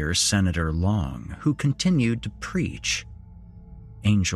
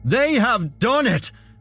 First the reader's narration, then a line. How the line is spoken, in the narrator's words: Senator Long screamed into the microphone